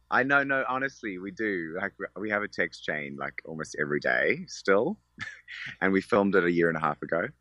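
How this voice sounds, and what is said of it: Strong Australian accent. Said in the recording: “my Australian accent is very strong”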